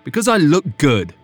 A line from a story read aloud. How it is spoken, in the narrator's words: Griffin snapped